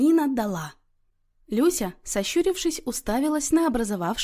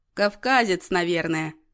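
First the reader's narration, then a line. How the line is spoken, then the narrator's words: Chuckling. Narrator (Russian): хохотнул Иннокентий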